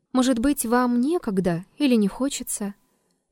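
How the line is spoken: Calm reply. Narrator (Russian): Триродов спокойно ответил

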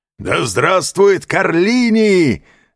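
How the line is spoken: Crowd shouting. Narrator (Russian): закричали разбойники

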